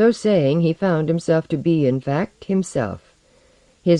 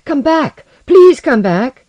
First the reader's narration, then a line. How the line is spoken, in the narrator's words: He shouted aloud